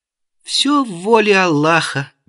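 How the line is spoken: Fearless giggle, vagrant. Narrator (Russian): бесстрашно хихикнул бродяжка

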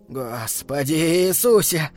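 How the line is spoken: Muttering, then louder. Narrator (Russian): пробормотал он и снова повысил голос

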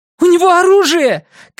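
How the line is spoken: Alarmed shout. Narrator (Russian): крикнула Пейтон

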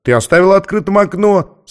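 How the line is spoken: Laughing boy. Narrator (Russian): засмеялся мальчик

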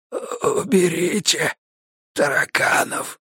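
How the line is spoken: Hoarse, even quieter. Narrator (Russian): хрипнул еще тише Леха

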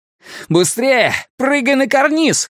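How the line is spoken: Shouted. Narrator (Russian): крикнул Исмаэль

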